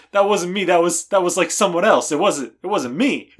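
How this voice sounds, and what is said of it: Danny Zuko impression. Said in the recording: “my Danny Zuko impression ... Not bad.”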